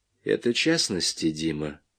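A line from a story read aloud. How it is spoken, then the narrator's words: Quiet. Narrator (Russian): тихо сказал Вечеровский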